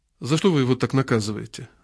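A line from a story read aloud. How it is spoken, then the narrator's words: Quiet question. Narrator (Russian): спросил я тихо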